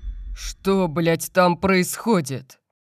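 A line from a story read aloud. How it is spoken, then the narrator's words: Roared. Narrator (Russian): Взревел я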